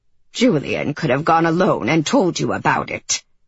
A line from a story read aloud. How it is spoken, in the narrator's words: she grunted as she lowered herself onto a bench